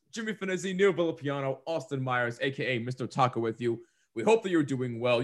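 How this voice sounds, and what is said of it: Low-energy, strained voice. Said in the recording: “That was a lack of energy there. ... how non-energetic that was? ... my voice is not cooperating today, so I'm a little bit out of it.”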